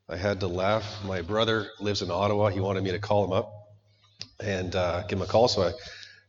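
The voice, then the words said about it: Weird, strained sick voice. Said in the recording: “this weird voice that I've been gifted with ... I'm not feeling too well, and I can't talk so well ... I'm sick and unwell”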